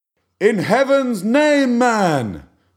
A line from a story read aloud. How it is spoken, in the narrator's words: cried Stubb